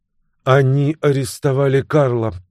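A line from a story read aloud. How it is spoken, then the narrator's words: Flat, even young woman's voice. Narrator (Russian): бесцветным ровным голосом сказала девушка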